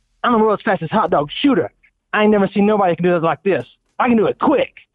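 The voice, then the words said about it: Impression of viral hot dog eater. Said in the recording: “I'm gonna do my impression of him probably really good”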